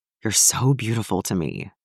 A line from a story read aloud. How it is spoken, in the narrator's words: Clint whispered